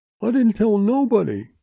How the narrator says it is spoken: quavered the cringing agent

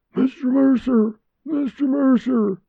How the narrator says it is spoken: The gray-haired man hoarsely shouted

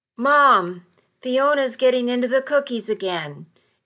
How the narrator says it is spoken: Avery's 8-year-old voice called out from inside the car

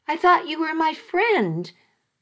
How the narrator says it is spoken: I cried

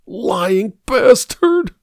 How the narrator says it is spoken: whimpered

